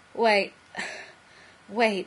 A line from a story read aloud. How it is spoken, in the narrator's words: he gasped